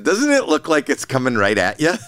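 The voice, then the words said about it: Put-on Canadian accent. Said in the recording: “With a Canadian accent.”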